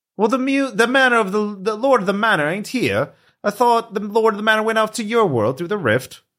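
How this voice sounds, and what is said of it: Inconsistent put-on character accent. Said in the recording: “Wandering accent, too.”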